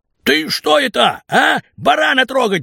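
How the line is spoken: Shout. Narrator (Russian): закричал Наган

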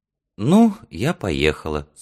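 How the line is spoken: Soft but determined. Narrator (Russian): сказала она мягко, но с решимостью в голосе

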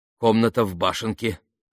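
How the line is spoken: Mumbled. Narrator (Russian): пробормотал он

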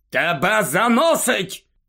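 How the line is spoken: Shouted. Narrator (Ukrainian): крикнув Скрімджер

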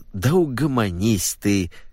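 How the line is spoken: Childlike pleading. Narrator (Russian): взмолился он, съежившись у нее под боком, как сморщенный младенец

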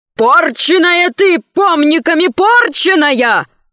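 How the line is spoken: Shouting ferryman. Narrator (Russian): закричал перевозчик

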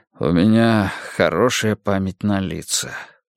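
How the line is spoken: Dejected voice. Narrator (Russian): упавшим голосом ответил Эрик

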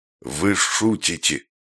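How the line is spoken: Hoarse rasp. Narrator (Russian): прохрипел он

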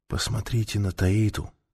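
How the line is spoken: Whispering. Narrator (Russian): прошептал он Ментаке

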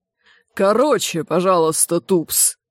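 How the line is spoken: Growl. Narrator (Russian): прорычал Чудакулли

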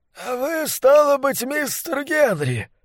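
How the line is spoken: Hoarse drunken voice. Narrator (Russian): ответил он сиплым, пропитым голосом

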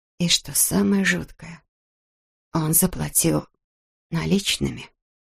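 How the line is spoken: Whisper. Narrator (Russian): прошептала Эбби

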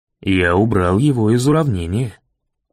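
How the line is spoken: Calm. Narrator (Russian): спокойно ответил мэр

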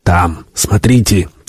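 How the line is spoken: Quiet. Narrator (Russian): тихо произнес Вальдес

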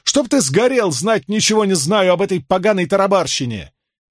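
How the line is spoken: Angry shout. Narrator (Russian): Мэтт, вспылив, закричал

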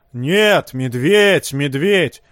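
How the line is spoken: Shrieking horse. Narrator (Russian): Завизжала лошадь

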